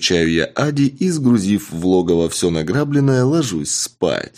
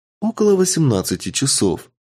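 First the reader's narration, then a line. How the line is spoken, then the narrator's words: Calm. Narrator (Russian): спокойно отвечает Андромеда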